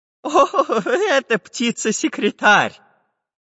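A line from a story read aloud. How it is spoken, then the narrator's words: Laughing. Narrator (Russian): Расхохотавшись, сказал Семен Семенович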